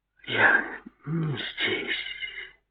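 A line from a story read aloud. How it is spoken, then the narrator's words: Whisper. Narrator (Russian): прошептала она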